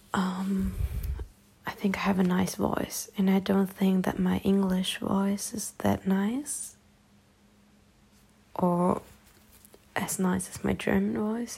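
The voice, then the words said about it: German accent speaking English. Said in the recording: “I have that German accent when I'm talking English”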